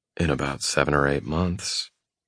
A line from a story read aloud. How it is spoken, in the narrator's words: I murmur